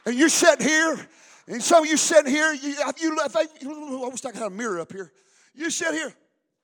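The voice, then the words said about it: Screaming preacher. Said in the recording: “I'm screaming. Why are you screaming? ... I'm trying to scream away your excuses.”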